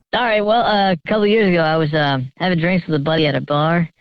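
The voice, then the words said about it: Electronically disguised voice. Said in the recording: “Voice changer is on.”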